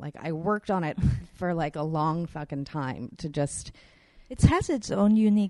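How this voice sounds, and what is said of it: Usual voice. Nothing is said of it.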